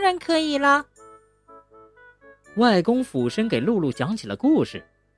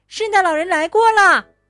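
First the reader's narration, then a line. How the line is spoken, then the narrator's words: Happy shout. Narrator (Chinese): 露露开心的喊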